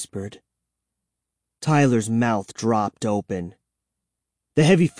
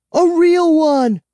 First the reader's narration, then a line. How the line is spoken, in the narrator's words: I shrieked